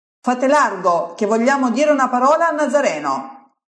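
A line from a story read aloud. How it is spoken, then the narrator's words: Arrogant yelling. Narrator (Italian): urlano prepotenti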